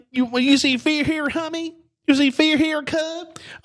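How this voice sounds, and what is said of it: Impression of Bobby Green. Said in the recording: “He sounded like my man Ray Ray on Haunted House ... That's exactly what he sounded like ... You sounded like a rocker when you did that.”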